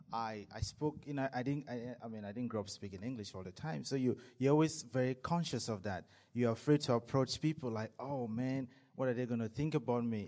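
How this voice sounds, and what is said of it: Non-native English accent. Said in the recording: “My accent didn't sound right ... they say I have an accent”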